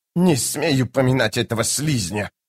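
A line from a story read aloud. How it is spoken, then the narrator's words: Hissed. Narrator (Russian): прошипела Хеттен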